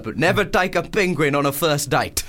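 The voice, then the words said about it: South African accent. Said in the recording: “That's a good South African accent. ... It's a really hard accent.”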